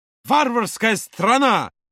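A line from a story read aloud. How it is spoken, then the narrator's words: Very loud exclamation. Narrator (Russian): Воскликнул Юра так громко, что посетители за соседним столиком обернулись на них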